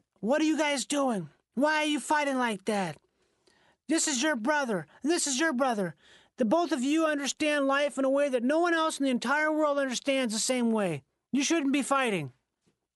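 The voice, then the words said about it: Imitates another person's voice. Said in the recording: “you sound a little like David Lynch in the way you're saying ... that's my Richard Farnsworth impression ... he's like an old gray-haired dude”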